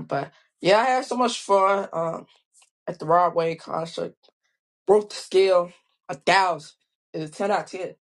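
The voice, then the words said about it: Slightly hoarse voice. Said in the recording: “lost my voice, though. A little bit hoarse”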